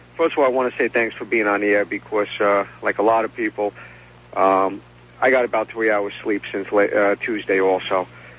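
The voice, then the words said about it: New York accent. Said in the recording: “another New York accent”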